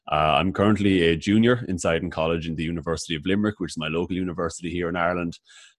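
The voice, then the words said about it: Irish accent. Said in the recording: “he has a really great accent that you'll be able to recognize as soon as he starts talking ... as you can tell by the accent, I'm a proud native of Ireland”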